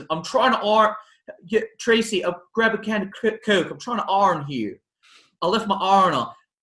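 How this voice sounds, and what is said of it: Baltimore accent imitating John Travolta's Edna. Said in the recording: “John Travolta ... his accent is absolutely hysterical ... with his accent ... That's an authentic accent ... Oprah lived in Baltimore ... your accent, because you nailed it”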